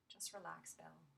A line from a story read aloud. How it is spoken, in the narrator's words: whispered